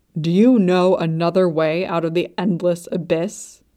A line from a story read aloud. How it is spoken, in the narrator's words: Luo Bingha snapped